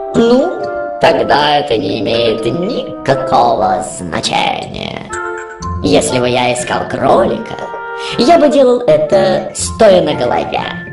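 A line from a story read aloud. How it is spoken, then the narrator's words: Cat's purr. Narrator (Russian): мурлыкнул кот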